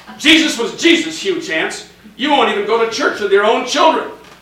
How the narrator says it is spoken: Mama snapped

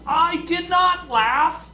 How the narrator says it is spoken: she yelled out

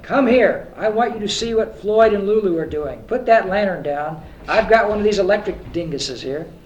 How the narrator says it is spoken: demanded harshly

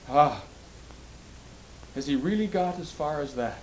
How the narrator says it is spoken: sighed Po Lo

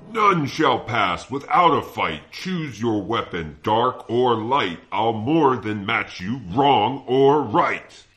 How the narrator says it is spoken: The giant bellowed

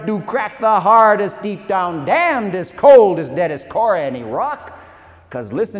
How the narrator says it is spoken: she thundered

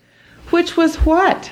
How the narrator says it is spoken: Lena gasped

